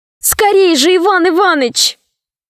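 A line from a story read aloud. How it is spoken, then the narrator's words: Shouting. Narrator (Russian): Синдбад закричал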